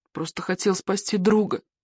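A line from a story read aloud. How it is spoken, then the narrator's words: Sobbing. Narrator (Russian): всхлипывал он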